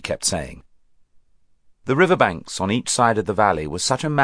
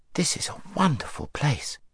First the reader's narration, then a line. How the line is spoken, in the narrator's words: said Shasta in an awed voice